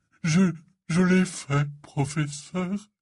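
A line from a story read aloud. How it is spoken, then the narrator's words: Announcing in choked voice. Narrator (French): annonça-t-il d'une voix étranglée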